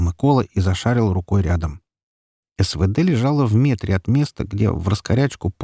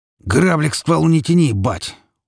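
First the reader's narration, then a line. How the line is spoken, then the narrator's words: Threatening tone. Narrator (Russian): угрожающим тоном сказал Петька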